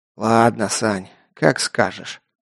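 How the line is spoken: Weary sigh. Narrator (Russian): устало вздохнул майор

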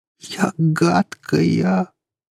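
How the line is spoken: Moan. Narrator (Russian): простонала она

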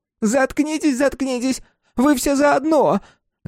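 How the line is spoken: Shrieking. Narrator (Russian): Взвизгнула тетка

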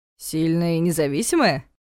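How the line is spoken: Chuckling. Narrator (Russian): хохотнул Ястребов

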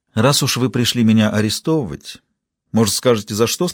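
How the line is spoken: Plain. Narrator (Russian): спросила она

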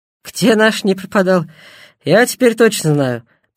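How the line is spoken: Grumbling. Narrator (Russian): проворчал Баскаков

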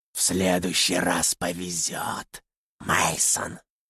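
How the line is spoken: Monster's hoarse wheeze. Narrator (Russian): Просипело чудище

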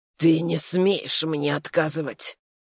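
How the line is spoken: Hissed into ear. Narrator (Russian): Прошипел он на ухо

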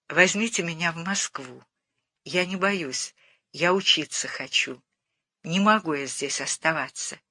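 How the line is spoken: Very quiet, stubborn. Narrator (Russian): очень тихо, но упрямо сказала

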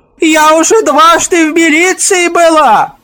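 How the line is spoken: Shrill shout. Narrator (Russian): Визгливо выкрикнула

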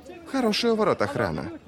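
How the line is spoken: Thoughtful remark. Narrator (Russian): задумчиво отметил Витарий

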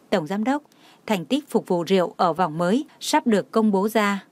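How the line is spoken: Soft smiling voice. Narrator (Vietnamese): Đông Anh mỉm cười ... mềm giọng nói

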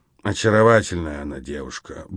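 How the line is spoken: Muttering major. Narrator (Russian): бормотал майор

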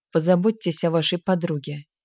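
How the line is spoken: Quiet interruption. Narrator (Russian): негромко прервал ее Грик

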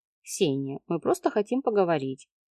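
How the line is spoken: Soft. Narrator (Russian): мягко сказала она

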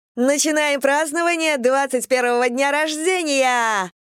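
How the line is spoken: Excited yell. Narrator (Russian): завопила Кэм

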